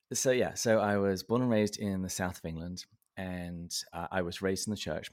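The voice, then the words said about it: Southern English accent. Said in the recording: “I was born and raised in the south of England, in the county of Berkshire. And that's why my accent is the way that it is.”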